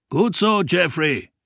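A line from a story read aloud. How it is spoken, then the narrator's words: Called out. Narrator (German): rief Reynolds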